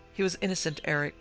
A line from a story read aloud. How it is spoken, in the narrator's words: Pet cried quickly